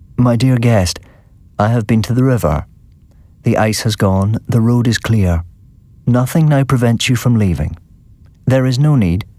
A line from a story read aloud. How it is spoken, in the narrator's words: He said to me, quite calmly